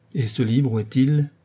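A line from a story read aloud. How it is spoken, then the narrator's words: Plain. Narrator (French): demanda la marquise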